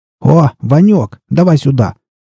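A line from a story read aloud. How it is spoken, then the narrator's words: Shouted. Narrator (Russian): крикнул борода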